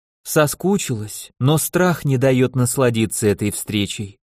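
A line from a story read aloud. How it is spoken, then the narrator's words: Sigh. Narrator (Russian): вздохнула Хтарка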